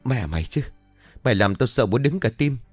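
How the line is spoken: Shaky stammering. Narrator (Vietnamese): Mày vẫn còn run rẩy rồi ấp úng

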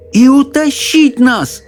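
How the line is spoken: Exclaimed. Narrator (Russian): воскликнул Чарли

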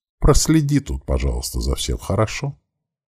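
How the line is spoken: Warm calling voice. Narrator (Russian): окликнула матушка каким-то теплым голосом

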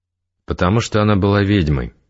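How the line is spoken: Very calm. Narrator (Russian): очень спокойно сказал Игорь

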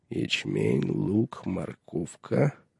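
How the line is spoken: Muttering. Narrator (Russian): пробормотал он

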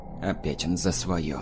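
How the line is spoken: Grumbled to no one. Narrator (Russian): буркнул Игнат, никому не обращаясь

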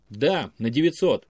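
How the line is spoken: Calm reply. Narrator (Russian): спокойно ответил Александр Козырев

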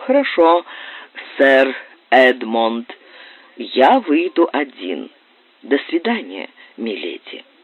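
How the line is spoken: Calm, suppressed indignation. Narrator (Russian): овладел своим негодованием и произнес спокойным голосом

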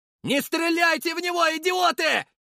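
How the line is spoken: Desperate shout. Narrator (Russian): закричал я, видя бессмысленность атаки

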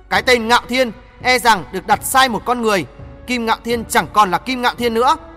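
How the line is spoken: Stern after laughing. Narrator (Vietnamese): Nàng nghiêm giọng sau tiếng cười đó nói với Ngạo Thiên

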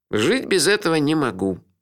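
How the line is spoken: Gloomy agreement. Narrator (Russian): мрачно согласился Мелифара

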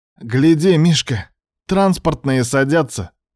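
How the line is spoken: Shouting. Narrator (Russian): крикнул Кривоногов

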